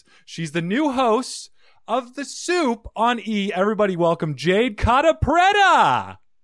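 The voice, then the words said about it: Booming announcer voice. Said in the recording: “A great announcer voice”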